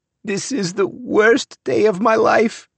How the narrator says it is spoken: she said, between great shuddering sobs

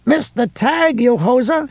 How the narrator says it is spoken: he shouted

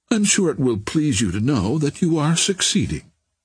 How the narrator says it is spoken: said Barbara sweetly

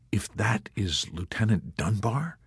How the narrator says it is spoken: whispered softly

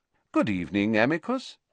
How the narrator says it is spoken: said Dumbledore calmly, as though welcoming the man to a tea party

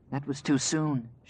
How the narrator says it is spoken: she whispered

